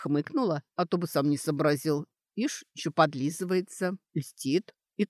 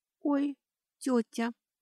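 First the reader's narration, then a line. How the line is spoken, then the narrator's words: Frightened whisper. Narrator (Russian): испуганно прошептала Кейтри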